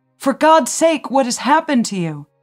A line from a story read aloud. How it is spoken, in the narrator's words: Sophie screaming